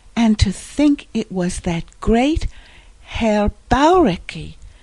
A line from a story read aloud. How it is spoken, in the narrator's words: exclaimed Polly